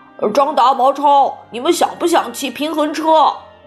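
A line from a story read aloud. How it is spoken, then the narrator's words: Very loud shout. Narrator (Chinese): 唐飞朝马小跳的背影特别大声地喊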